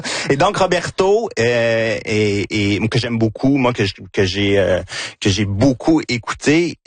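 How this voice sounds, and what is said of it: Victoriaville Quebec French accent. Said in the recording (French): “Gina sourit à cause de mon accent ... C'est mon accent de Victoriaville”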